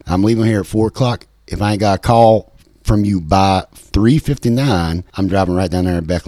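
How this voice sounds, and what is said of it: Imitated West Virginia accent, not convincing. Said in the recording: “That's not a really good representation of the West Virginia accent”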